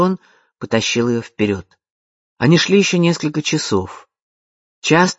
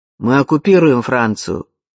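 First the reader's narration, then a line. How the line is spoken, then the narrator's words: Rude interrupting soldier. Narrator (Russian): грубо перебил солдат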